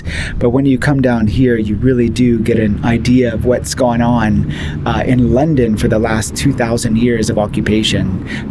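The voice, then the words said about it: American accent. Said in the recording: “my accent that I'm American”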